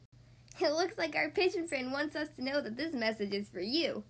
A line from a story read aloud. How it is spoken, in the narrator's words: Bugsy Wugsy said, giggling